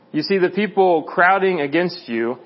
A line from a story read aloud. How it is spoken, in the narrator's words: his disciples said